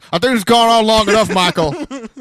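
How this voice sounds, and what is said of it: Imitates a wrestling announcer's voice. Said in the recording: “Great wrestling impression.”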